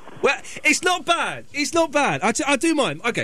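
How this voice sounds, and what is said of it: Usual voice. Nothing is said of it.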